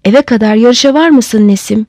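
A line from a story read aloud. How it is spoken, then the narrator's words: Shouting. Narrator (Turkish): diye bağırdı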